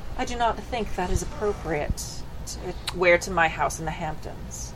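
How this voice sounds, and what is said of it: Posh upper-class Mr. Howell voice. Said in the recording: “more proper, more high class, like, rich assholes ... Mr. Howell. From the Gilligan's Island. ... That's a good accent.”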